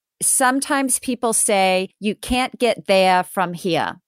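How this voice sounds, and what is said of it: Put-on Maine accent. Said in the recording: “in Maine ... Is that the right accent? ... Pretty close.”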